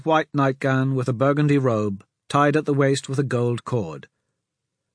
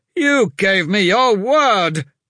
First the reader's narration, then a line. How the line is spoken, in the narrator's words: shouted